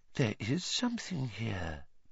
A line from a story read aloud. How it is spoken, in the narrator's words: Professor Trelawney whispered